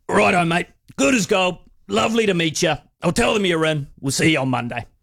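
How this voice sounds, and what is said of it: Imitates another person's voice. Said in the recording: “my best Phil Gifford impression. It's going to be terrible”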